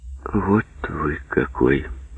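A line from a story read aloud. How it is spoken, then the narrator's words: Quiet. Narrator (Russian): тихо сказала она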